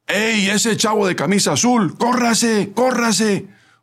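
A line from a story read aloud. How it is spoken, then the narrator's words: Shouting. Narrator (Spanish): el ayudante que, mientras señalaba, gritó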